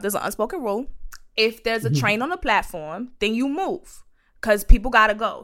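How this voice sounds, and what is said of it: New York accent. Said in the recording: “now my New York accent gonna come out”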